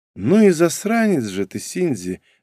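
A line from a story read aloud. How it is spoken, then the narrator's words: Sighed. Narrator (Russian): вздохнула Норико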